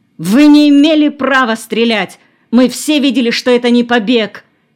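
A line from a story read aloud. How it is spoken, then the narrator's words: Furious shout. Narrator (Russian): Сергей Петрович с бешенством крикнул коменданту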